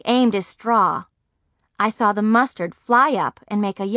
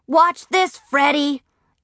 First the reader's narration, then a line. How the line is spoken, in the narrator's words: Philip Leroy yell